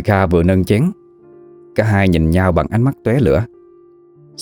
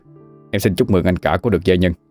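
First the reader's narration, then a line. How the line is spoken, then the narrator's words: Cold reply. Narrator (Vietnamese): Kim Kha bèn lấy lại sự lạnh lùng, mà đáp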